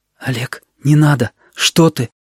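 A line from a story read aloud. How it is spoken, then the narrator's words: Hurried whisper. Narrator (Russian): Торопливым шепотом Сережа сказал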